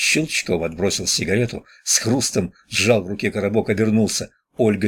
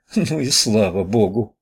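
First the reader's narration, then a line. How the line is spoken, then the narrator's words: Relieved sigh. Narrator (Russian): облегченно вздохнула она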